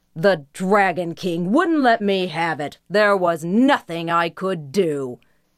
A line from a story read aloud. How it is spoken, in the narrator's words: Defiantly, the older brother snapped